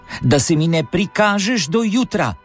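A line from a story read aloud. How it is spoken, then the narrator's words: Calling after someone. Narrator (Slovenian): je zaklicala za njim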